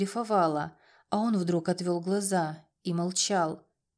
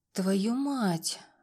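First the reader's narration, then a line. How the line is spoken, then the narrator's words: Breathed out. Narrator (Russian): выдохнула я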